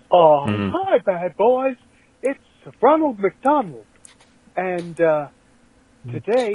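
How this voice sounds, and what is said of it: Ronald McDonald voice sounding like Mickey Mouse. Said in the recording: “Coincidentally sounds like Mickey Mouse.”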